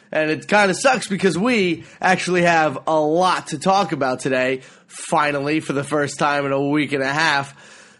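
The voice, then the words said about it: Slightly congested voice with sniffling. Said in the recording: “excuse my random sniffling throughout the show. I have like a 5% cold right now ... one of those weird colds where it only affects one nostril ... my voice is a little bit annoying”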